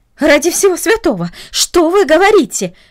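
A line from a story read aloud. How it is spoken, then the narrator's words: Exclaimed. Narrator (Russian): воскликнула она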